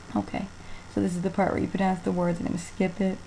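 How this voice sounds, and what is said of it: Slight New Jersey accent. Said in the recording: “if you notice an accent at all, it's a slight Jersey, maybe New York accent, but I try to tone it down. I don't think it's that bad.”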